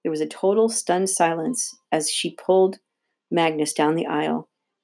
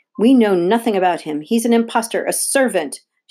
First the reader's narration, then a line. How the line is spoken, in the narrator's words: spat